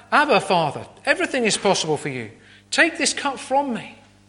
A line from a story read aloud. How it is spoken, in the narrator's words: he cried out